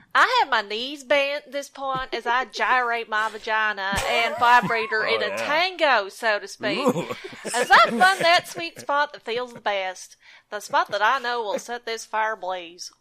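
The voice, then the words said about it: Cheerful put-on Southern accent. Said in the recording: “cheerful, non-specific southern accent”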